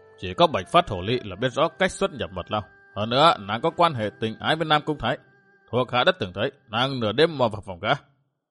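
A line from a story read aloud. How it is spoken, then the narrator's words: Cold. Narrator (Vietnamese): Thần Châm Tiên Cơ lạnh lùng nói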